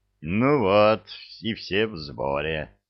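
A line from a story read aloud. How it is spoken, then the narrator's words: Satisfied sigh. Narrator (Russian): удовлетворенно вздохнул капитан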